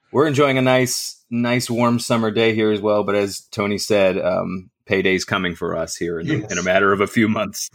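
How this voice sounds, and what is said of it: Michigan accent. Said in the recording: “I am in mid-Michigan ... as you can tell from my accent, I've lived here all my life”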